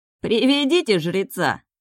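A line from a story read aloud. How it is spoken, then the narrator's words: Loud yell. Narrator (Russian): заорал брюнет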